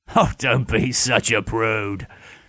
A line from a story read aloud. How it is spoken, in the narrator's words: Ken chuckled